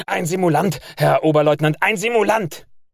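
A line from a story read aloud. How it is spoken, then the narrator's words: Malicious shout trembling with rage. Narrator (German): der Zugführer Jasterski schreit mit seiner boshaften Stimme zitternd vor Wut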